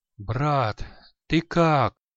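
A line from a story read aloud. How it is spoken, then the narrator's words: Weak moan. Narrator (Russian): Слабо простонал Кушит-полукровка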